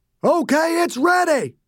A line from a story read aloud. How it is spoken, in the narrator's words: Nail screamed